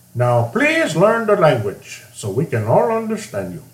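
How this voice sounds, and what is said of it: Put-on Indian accent. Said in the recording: “That's my Indian accent, which is something I have very well”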